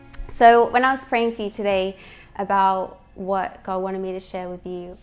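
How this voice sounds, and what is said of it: Australian accent. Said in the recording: “I'm Australian, if you ever wonder about my accent”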